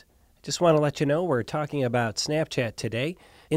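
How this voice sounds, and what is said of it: Cleveland accent with nasal A. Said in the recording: “I was born and raised in Cleveland, Ohio, and despite my best efforts to part with my accent ... that very nasally A sound”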